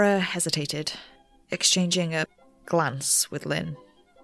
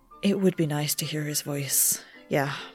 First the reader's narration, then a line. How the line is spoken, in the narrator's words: Lynn sighed